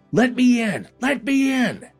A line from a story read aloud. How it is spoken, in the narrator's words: shouting